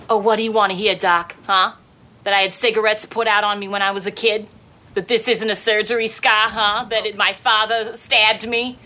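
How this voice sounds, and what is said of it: Put-on Boston or Brooklyn accent. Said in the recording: “You're speaking right now with a Brooklyn accent ... Boston. ... It was a Boston accent. ... The accent was clearly from Brooklyn. ... that little bit was from Good Will Hunting”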